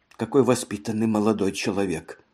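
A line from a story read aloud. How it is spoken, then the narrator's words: Whisper. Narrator (Russian): она прошептала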